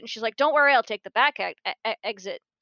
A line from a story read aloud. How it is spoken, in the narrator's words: Marinette shouts